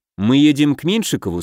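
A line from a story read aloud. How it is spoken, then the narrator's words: Plain question. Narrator (Russian): спросил я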